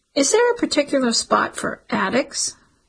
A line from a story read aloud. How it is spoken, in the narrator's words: The man laughed